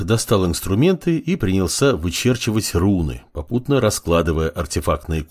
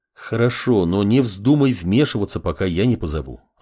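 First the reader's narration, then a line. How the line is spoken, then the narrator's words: Plain. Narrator (Russian): ответил маг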